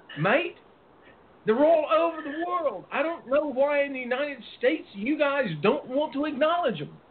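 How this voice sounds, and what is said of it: Put-on Australian accent. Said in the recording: “there's my best Australian accent.”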